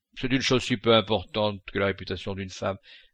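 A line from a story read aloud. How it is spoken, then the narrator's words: Curt, contemptuous. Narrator (French): dit Sinclair d'un ton sec et méprisant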